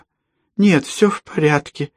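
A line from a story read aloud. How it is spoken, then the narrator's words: Strained, old woman. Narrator (Russian): выдавила старуха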